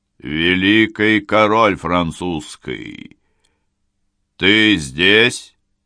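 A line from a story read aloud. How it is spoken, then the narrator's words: Solemn proclamation. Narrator (Russian): торжественно провозгласил Калиостро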